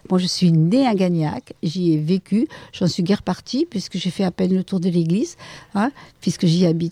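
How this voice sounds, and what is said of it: Regional French accent, not northern. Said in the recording (French): “Avec cet accent, vous pouvez bien imaginer que je ne suis pas de Belgique ou du nord de la France.”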